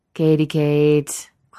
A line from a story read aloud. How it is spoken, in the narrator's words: Clint drawls